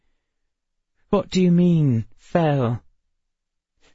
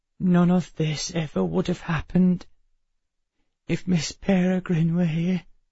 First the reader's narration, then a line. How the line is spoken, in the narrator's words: she whispered